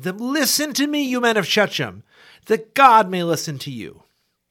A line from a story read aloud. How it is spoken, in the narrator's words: he went out and stood on the top of Mount Gerizim and lifted out his voice, cried out and said